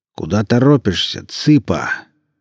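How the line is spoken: Smoky bass question. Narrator (Russian): поинтересовался Гомес прокуренным басом

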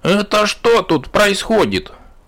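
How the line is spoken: Loud alarmed shout. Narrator (Russian): разглядевшая закрытые глаза громко закричала

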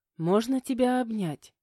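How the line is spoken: Bolder yet timid request. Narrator (Russian): уже смелее заговорила она, робко попросив

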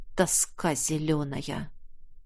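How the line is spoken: Gloomy sigh. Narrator (Russian): Уныло вздохнул Нерт

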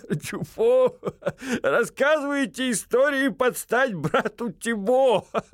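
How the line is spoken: Chuckling. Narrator (Russian): Хохотнул фламандец

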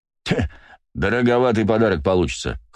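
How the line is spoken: Chuckling. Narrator (Russian): хохотнул Василий

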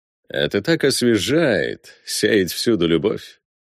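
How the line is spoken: Purring. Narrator (Russian): промурлыкал Валме

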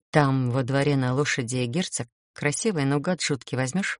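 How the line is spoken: Whispered question. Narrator (Russian): спросила шепотом у хозяйки

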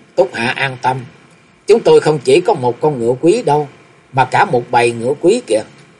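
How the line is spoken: Smiling. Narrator (Vietnamese): A Thừa Cổn mỉm cười nói

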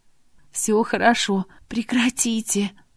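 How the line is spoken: Whispering, unfamiliar voice. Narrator (Russian): зашептала я, не узнавая свой голос

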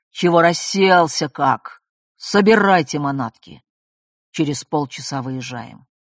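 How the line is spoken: Clipped, distinct, vicious. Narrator (Russian): внятно, злобно отчеканил

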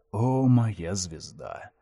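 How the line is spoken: Sad. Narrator (Russian): Грустно произнес он

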